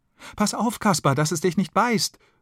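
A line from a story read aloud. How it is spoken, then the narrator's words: Child calling excitedly. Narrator (German): ruft ein Kind aufgeregt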